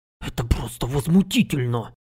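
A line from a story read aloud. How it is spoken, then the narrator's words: Indignant distant whisper. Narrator (Russian): Шепот, полный праведного гнева, донесся из дальнего угла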